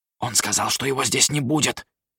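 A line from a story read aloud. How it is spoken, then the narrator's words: Hurried whisper. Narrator (Russian): торопливо шепнул один из министров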